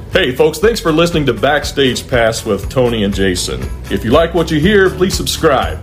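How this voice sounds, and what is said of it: Radio voiceover announcer voice. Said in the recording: “in your best radio voiceover voice.”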